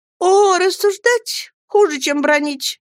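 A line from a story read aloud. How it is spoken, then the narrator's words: Desperate shout. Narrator (Russian): закричала Дора в отчаянии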